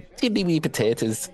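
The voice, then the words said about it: Attempted Irish accent, sounds Swedish. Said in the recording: “I was trying to do Irish. ... It does sound like Swedish chef.”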